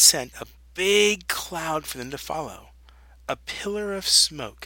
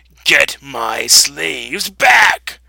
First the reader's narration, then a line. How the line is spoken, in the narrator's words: he screeched